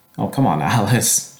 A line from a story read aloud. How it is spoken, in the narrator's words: Joshua laughed